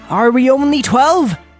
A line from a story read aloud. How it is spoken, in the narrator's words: He cried